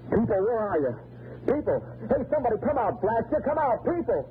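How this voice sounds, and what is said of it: Yelling loudly. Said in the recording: “stop yelling at me”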